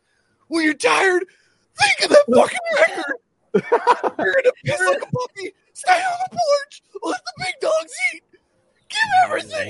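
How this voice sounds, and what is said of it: Imitates another person's voice. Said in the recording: “my best Jamal Williams from Hard Knocks impression”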